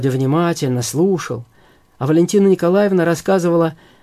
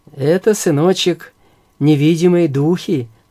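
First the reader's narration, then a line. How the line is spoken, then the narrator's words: Plain. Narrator (Russian): ответила она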